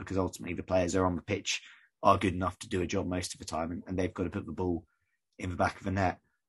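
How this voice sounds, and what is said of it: Croaky, hoarse voice. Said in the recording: “My voice is sounding very croaky now”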